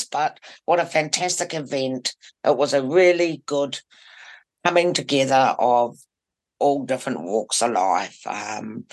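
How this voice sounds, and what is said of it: Hoarse voice. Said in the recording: “A bit hoarse”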